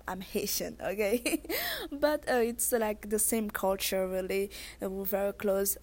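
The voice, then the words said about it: Thick Haitian accent. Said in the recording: “I have a thick accent”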